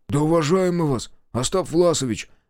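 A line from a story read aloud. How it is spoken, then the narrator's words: Muffled, hollow. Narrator (Russian): глухо сказал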